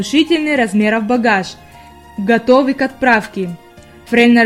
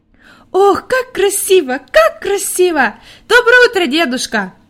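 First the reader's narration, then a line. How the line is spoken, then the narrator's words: Joyful shouting while running. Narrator (Russian): радостно кричала Хайди, выбегая из хижины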